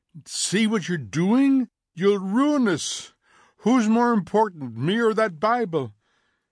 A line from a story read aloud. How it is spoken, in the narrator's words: She was beginning to shriek now